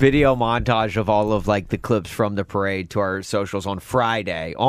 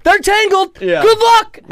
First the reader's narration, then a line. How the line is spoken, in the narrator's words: yelled